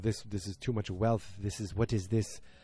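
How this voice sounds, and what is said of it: Bad put-on French accent. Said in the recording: “I am not going to talk with a French accent. I just did. ... This is very bad, and it's not even a good accent. ... This is like the guy from Cheers. ... I'm like from middle America”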